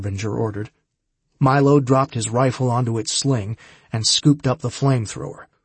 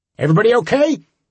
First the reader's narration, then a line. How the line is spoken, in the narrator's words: Harbinger shouted